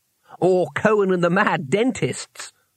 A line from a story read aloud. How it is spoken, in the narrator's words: laughed Twoflower